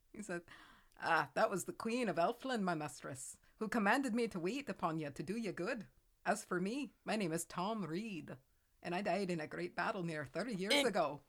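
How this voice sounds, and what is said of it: Put-on Scottish accent. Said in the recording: “I feel like I nailed that Scotland accent. ... It's the first one I did to where I didn't feel like I was choking.”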